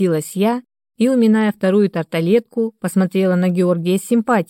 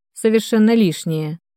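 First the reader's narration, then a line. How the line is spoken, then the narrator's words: Dry, curt. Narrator (Russian): сухо обрубил Денис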